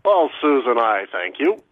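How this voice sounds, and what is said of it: Weak John Sterling impression. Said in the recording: “the voice of the New York Yankees, John Sterling ... not a great impression ... Not great.”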